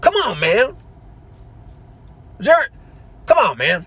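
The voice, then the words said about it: Joe Biden impression. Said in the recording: “I do an imitation of Joe Biden?”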